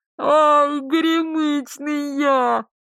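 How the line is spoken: Muffled, indistinct groan. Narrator (Russian): Простонал прямо в землю, отчего голос прозвучал глухо и неразборчиво

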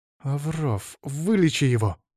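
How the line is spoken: Angry. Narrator (Russian): зло проговорила принцесса

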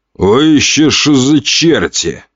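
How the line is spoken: Growling, bald man. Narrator (Russian): рыкнул лысый

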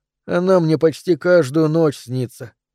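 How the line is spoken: Boy sighing. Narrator (Russian): вздохнул мальчик

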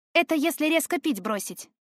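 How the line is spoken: Wry snort. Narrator (Russian): хмыкнула

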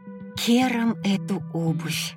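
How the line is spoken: Quiet curse after slipping. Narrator (Russian): тихо выругалась я, поскользнувшись на промерзшей луже и чуть не упав

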